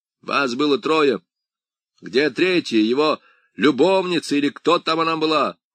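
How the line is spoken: Shouted after someone. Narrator (Russian): крикнул в спину высокой

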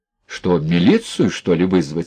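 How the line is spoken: Calm, contemptuous question. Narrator (Russian): спросил доктор спокойно и презрительно

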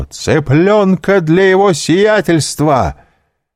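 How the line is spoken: Shouting at full voice. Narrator (Russian): Пипино крикнул во все горло

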